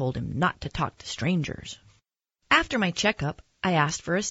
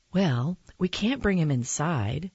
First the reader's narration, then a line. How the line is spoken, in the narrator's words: she said finally